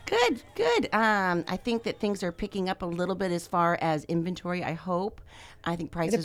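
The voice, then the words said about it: Hoarse, croaky voice. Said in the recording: “I have a frog in my throat”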